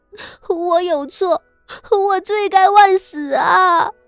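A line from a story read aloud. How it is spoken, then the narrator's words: Crying. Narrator (Chinese): 他哭着道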